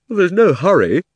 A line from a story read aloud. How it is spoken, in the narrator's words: said Diggory, with a huge yawn